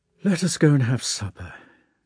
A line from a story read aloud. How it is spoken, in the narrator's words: he said with a sigh